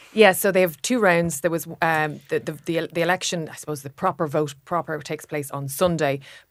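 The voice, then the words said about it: French accent. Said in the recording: “You're a French citizen. ... I am, yeah. And as you can tell from my accent, obviously.”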